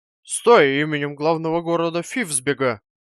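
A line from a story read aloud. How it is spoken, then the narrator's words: Officer shouting. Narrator (Russian): закричал офицер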